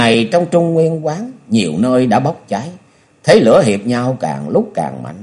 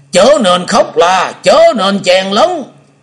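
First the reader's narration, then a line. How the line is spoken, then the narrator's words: Loud shout. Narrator (Vietnamese): Hoa Vân từ trên nhảy xuống lớn tiếng quát lớn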